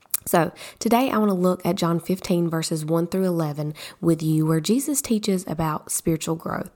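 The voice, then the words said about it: Hoarse, partly lost voice. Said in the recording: “excuse my voice ... I have lost a pretty good portion of my voice”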